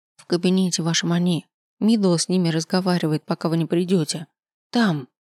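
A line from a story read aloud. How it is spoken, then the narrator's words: Whisper. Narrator (Russian): шепнула Лаяна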